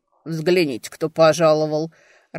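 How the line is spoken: Low, slightly hoarse voice. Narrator (Russian): раздался низкий, чуть хриплый голос

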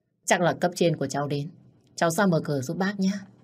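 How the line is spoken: Smiling, friendly. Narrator (Vietnamese): Bác Hoàn nhìn ra ngoài, mỉm cười nói với tôi

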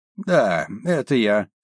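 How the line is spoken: Creaky young man's voice. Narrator (Russian): скрипучим голосом произнес парень

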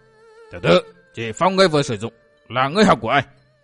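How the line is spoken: Loud bark. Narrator (Vietnamese): Hắc Thạch bảo chủ quát to

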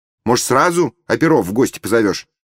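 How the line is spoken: Wry snort. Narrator (Russian): хмыкнула Румаль Мусаевна

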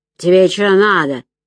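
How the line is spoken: Sharp barking shout. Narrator (Russian): рявкнула

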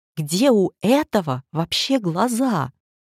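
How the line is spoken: Terrified yell. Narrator (Russian): Лёша в ужасе заорал

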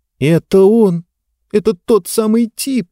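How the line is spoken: Moaning. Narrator (Russian): простонала она

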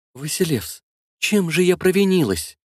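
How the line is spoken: Trembling voice. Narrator (Russian): спросила Евдокия дрожащим голосом

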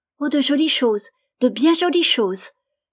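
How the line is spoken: Little girl, joyful exclamation. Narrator (French): s'écria la petite toute joyeuse

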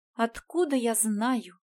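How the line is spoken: Weary sigh. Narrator (Russian): Устало вздохнула принцесса

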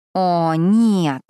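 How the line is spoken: Displeased drawl. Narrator (Russian): недовольно протянула я

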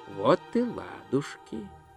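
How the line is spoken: Quiet speech. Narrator (Russian): негромко сказал Гончия

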